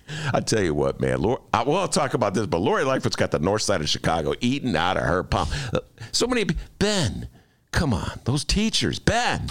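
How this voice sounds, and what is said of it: Imitates another person's voice. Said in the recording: “who's that an impression of?”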